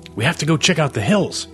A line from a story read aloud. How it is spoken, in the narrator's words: Casey said excitedly